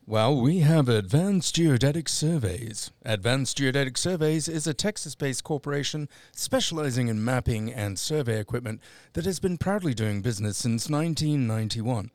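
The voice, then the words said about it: Put-on radio announcer voice. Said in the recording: “that's my radio voice over with”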